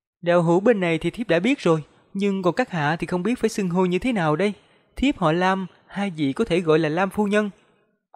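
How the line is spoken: Middle-aged woman, smiling. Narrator (Vietnamese): Vị phu nhân trung niên mỉm cười rồi mới nói

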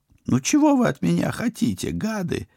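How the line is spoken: Whining. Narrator (Russian): заскулил он

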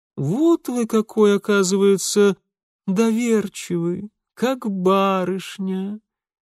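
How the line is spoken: Lazy, languid drawl. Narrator (Russian): Все с той же ленивой томностью протянул Волконский

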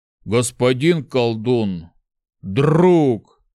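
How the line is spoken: Sad growl. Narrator (Russian): как-то печально прорычал Шухрак

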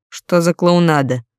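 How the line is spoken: Irritated question. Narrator (Russian): раздраженно спросил генерал

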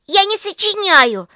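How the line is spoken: Defiant shout. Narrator (Russian): закричала Лика с вызовом

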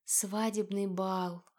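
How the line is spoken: Dreamy sigh. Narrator (Russian): она мечтательно вздохнула

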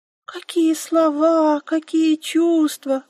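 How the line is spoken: Squeaky. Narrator (Russian): пропищала она

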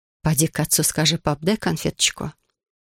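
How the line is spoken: Whispered. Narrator (Russian): шепнула Соня

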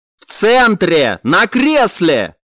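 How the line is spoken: Shouting. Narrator (Russian): прокричал некромант

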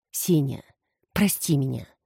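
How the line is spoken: Quiet but firm. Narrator (Russian): сказала она тихо, но твердо

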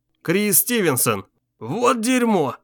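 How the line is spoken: Relieved exhale. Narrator (Russian): Блейк с облегчением выдохнул

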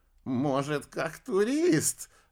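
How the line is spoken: Laughing. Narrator (Russian): рассмеялся Бабарский

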